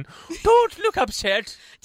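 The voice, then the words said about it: Put-on Scottish or Irish accent. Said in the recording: “Said like you did your best like Scottish accent. ... Who invited Mrs. Like, Doubtfire? ... That was more Irish, actually, not Scottish.”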